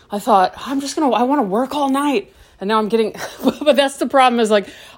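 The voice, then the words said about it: Breathless, out of breath. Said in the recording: “out of breath.”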